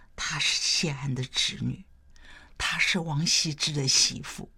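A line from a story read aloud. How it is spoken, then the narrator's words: Low voice. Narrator (Chinese): 有人低声说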